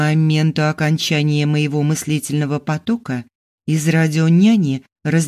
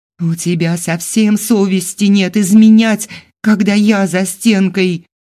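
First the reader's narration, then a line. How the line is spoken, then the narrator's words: Angry screaming. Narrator (Russian): Начала вопить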